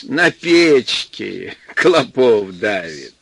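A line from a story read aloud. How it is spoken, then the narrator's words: Laughing. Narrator (Russian): Гуть смеялась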